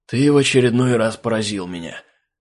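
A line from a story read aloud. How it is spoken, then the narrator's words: Breathed out. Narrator (Russian): Выдохнул он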